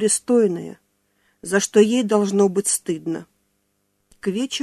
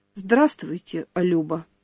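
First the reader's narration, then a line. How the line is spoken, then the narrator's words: Soft, smiling. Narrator (Russian): мягко улыбнулся он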